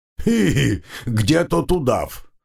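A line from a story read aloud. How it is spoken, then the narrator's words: Giggling. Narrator (Russian): хихикнул Вавило Силыч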